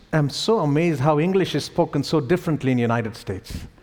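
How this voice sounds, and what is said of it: Indian English accent. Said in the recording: “my Indian accent”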